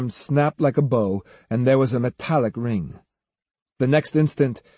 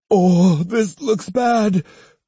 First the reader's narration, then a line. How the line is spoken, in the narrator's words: cried Kosuke